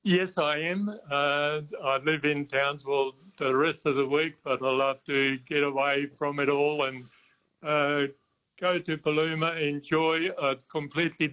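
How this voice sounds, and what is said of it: South African accent. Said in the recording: “I note you've got an accent which says to me, South Africa.”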